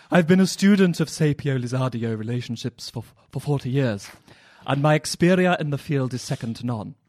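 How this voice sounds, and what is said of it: Posh AbFab-style character voice. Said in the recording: “your AbFab impression”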